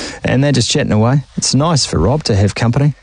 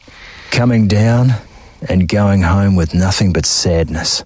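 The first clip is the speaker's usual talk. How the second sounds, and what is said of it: Mock serious voice. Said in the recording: “I'm just going to put my serious voice on.”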